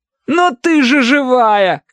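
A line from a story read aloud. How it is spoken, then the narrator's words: Shout. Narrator (Russian): крикнул он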